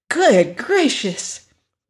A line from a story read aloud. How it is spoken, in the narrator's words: cried Dorothy, shrinking